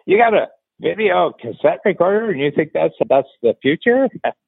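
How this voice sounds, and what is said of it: Imitates another person's voice. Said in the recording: “that was my Billy Crystal imitation.”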